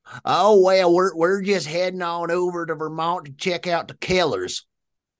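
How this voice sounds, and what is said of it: Strong Nebraskan accent, leaning Southern. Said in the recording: “this accent is so strong. Now, what I just did was probably a little more Southern than what he was throwing out there. ... That was a Nebraskan accent.”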